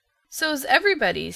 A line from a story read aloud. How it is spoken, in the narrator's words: said Aunt Jamesina cheerfully